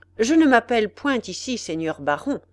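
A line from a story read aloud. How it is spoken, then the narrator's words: Firm answer. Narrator (French): répondit ordinaire d'une voix ferme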